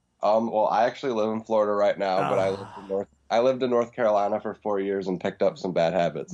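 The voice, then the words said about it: Noticeable regional accent. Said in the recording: “I noticed you have an accent.”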